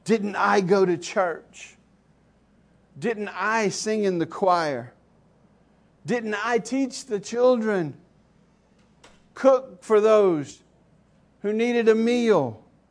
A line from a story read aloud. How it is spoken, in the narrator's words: she began to plead